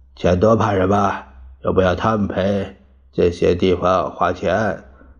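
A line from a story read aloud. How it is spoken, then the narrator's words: Low muttered cursing. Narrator (Chinese): 蒋介石低声骂着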